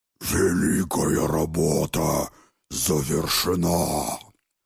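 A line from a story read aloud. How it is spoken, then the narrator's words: Growling bull-headed creature. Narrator (Russian): прорычал Быкоголовый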